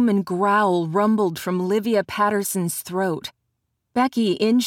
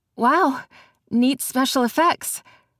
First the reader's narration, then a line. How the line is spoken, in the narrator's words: she laughed nervously